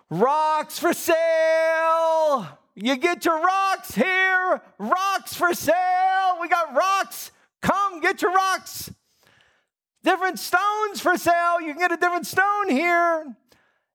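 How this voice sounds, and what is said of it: Loud yelling like a young child. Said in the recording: “in a loud voice, I started saying, yelling ... in the loudest voice of about a 7, 8-year-old”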